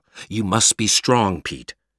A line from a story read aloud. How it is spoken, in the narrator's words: he said